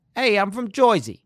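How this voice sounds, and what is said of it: Put-on New Jersey accent. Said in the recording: “I don't have a New Jersey accent in my arsenal ... You know the little rat who's in the Muppets? ... It's that accent ... Jersey ... No, you got it ... You're almost there.”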